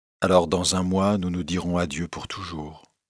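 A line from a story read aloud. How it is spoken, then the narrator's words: Sad tone. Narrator (French): Elle lui dit alors d'un ton triste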